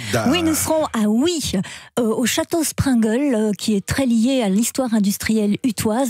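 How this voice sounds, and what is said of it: A pleasant regional accent. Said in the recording (French): “vous avez un bel accent”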